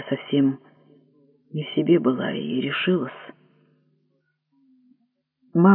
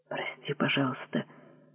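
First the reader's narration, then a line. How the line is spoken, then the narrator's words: Quiet, frightened. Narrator (Russian): тихо сказала жена, испуганно глядя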